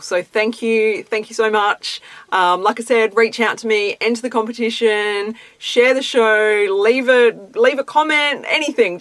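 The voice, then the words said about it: Excited, pumped-up voice. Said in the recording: “You can tell by my voice how excited and pumped I am.”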